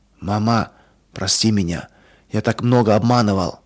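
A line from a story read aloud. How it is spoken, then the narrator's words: Whisper. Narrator (Russian): он прошептал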